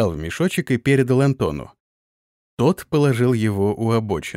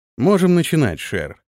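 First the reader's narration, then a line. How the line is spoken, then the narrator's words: Calm. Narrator (Russian): спокойно произнес Антон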